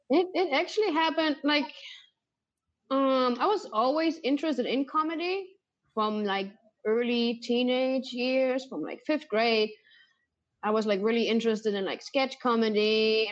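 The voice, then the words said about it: German accent. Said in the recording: “you're German, right? That's the accent... That's why I kind of recognize the accent. She sounds very similar to you.”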